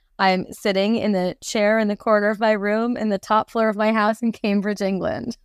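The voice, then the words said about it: New York accent. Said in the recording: “it doesn't sound like a very Cambridge-based accent... it smacks of New York, that accent”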